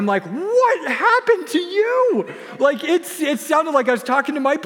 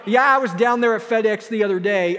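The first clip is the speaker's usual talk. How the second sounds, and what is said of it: Put-on Kentucky hillbilly accent. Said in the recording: “he sounds like a hillbilly from Kentucky now”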